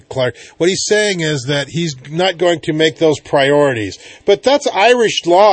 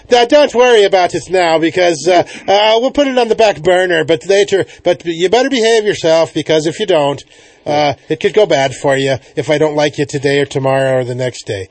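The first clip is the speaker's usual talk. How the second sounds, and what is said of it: Put-on Irish accent. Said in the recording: “I'll do my Irish accent here.”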